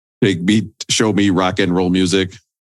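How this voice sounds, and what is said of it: Alien character voice. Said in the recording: “your alien impression”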